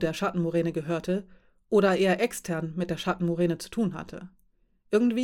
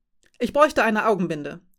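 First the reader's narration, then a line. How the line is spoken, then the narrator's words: Calling out. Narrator (German): rief Ass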